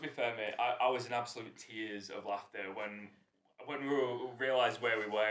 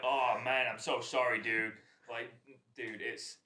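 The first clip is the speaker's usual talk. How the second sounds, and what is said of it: Imitates another person's voice. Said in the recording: “that was the best Nate impression... that's the best Nate impression I've ever heard. Really is.”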